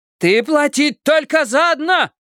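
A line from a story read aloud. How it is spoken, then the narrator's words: Shouting mother. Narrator (Russian): кричала мама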